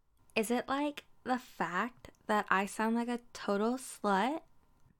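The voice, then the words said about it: Valley Girl voice. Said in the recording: “my valley girl voice?”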